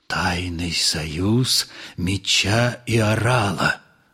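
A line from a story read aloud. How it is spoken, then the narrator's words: Ominous whisper. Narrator (Russian): зловеще прошептал Остап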